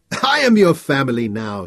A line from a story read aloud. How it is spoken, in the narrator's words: laughed